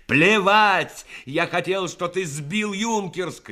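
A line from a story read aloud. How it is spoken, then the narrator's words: Shouting. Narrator (Russian): крикнул Рассохин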